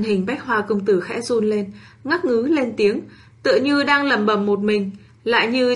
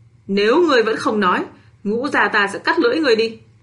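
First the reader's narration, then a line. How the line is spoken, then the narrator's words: Furious roar. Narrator (Vietnamese): Bạch Ngọc Đường nhất thời nổi giận, gầm lên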